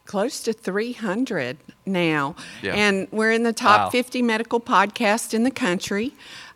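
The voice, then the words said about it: Noticeable regional accent, slow speech. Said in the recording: “people like hearing this accent ... They can't speed me up.”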